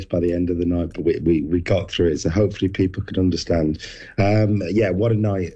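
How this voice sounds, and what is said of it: Hoarse, strained voice. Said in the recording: “losing your voice a little bit ... I definitely lost my voice”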